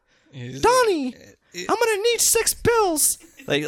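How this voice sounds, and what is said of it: Mickey Mouse character voice impression. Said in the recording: “That was actually a pretty good impression.”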